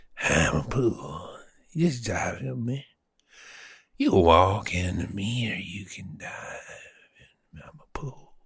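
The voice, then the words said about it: Playful impression of a pool. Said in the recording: “What is that accent? ... That's me becoming the pool. That was me trying to do an impression of a pool. ... how do you sound like a pool?”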